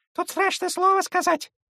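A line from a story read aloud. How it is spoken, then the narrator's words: Squeaky birdlike voice. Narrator (Russian): пискнул птичий голос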